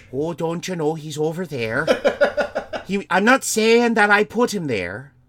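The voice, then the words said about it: Put-on Wisconsin Canadian, Scottish-sounding accent. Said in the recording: “why is he Scottish? ... No, that's not Scottish. That's more Wisconsin Canadian. ... That was Scottish. You sounded Scottish.”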